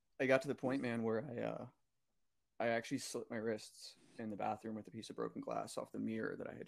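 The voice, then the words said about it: Emotional, strained voice. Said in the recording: “I'm getting a little emotional here, so I'm trying to keep it together”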